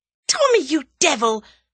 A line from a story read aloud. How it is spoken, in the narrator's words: almost screamed Tuppence